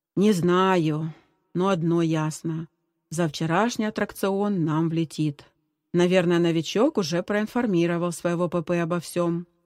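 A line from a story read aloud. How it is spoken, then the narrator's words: Gloomy summing up. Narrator (Russian): мрачно подытожил Женя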